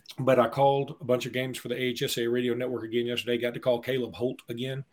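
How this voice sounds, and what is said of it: Strained, worn-out losing voice. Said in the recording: “My voice is losing. ... I've hit a wall.”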